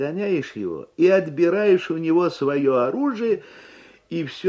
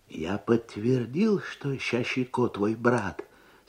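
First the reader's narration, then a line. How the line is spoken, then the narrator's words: Clerk, low voice, Abkhaz. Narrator (Russian): сказал ему писарь по-абхазски вполголоса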